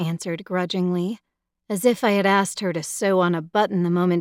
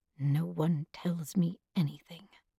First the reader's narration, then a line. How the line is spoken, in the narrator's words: she muttered so softly I wasn't sure I was meant to hear